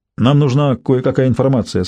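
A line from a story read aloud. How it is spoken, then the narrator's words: Plain. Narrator (Russian): сказал бандит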